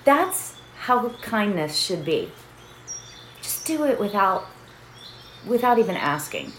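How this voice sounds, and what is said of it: Emotional voice. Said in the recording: “I'm getting emotional.”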